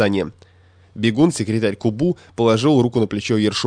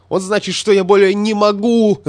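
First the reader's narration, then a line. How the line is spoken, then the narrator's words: Furious shout. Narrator (Russian): закричал ему в лицо статистик, покрываясь красными пятнами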